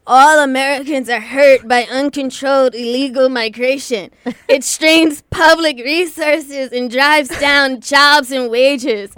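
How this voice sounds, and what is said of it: Imitates another person's voice. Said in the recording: “That's my Trump impression ... I've been practicing that”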